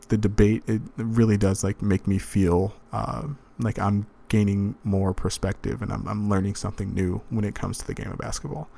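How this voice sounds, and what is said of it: Calm, measured radio-style voice. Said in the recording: “less philosophical, less NPR voice”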